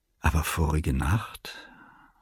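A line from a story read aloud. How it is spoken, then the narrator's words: Quiet addition. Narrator (German): setzte ich leise hinzu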